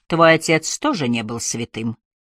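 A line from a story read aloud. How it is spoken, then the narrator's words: Even tone after pause. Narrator (Russian): Помолчав, Айрин добавила ровным тоном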